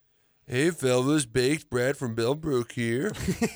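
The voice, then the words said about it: Stoner voice. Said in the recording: “you'll have to read in a stoner voice.”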